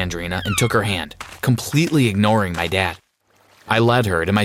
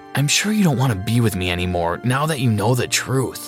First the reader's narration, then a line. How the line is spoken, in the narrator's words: I sighed